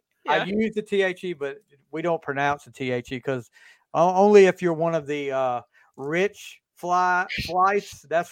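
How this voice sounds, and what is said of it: Southern American accent. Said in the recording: “with my southern accent”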